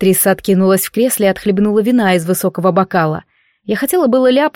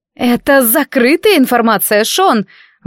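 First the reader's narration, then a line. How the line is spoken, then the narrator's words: Exclaimed. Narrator (Russian): воскликнула Катрин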